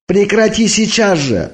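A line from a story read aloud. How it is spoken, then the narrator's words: Loud reckless yelling. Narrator (Russian): орал я, не заботясь уже о том, что меня услышат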